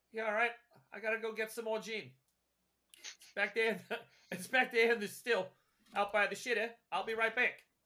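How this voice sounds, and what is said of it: Bad put-on Australian accent. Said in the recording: “It's terrible Australian. It's only to this particular part of the outback.”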